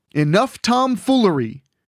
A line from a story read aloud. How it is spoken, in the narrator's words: Crumb shouted